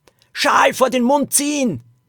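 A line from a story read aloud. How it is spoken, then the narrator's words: Called out. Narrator (German): rief Lilo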